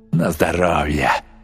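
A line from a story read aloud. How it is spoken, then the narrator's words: Grumbled. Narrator (Russian): проворчал Рич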